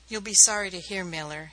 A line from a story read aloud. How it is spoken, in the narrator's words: said, his voice was uninflected